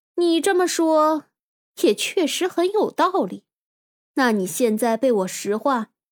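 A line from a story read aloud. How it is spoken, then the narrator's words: Loud. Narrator (Chinese): 古天明大声说道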